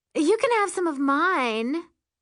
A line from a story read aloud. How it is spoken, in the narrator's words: she says sweetly